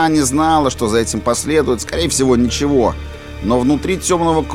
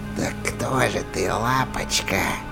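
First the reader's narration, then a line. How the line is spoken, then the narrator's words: Whisper. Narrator (Russian): прошептала Рия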